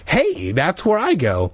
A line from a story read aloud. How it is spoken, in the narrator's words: Hannah exclaimed